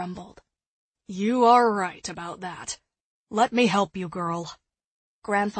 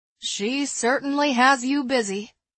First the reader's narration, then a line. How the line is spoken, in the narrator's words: Eliza chuckled